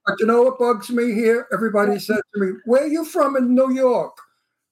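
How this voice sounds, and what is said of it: Brooklyn accent. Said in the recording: “With a Brooklyn accent ... If I lose my accent, I go back to Brooklyn to get it back”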